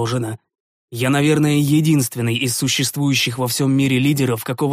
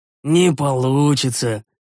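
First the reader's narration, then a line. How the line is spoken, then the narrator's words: Regretful sigh. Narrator (Russian): с сожалением вздохнул я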